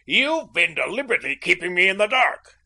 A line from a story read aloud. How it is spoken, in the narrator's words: he shouted